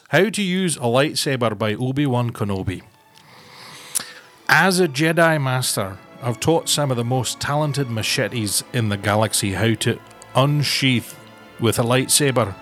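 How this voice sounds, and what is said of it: Put-on Scottish accent. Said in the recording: “I know you can do a very good Scot ... I do like to think I've got a pretty decent Scottish accent”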